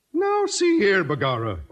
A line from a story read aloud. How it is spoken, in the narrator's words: O'Houlihan exclaimed with a merry twinkle